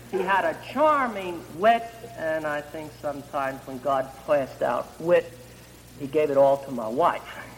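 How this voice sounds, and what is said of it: Jersey City accent. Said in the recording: “my Jersey City accent”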